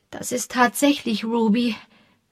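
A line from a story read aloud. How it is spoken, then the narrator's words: Trembling voice. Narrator (German): sagte sie mit zitternder Stimme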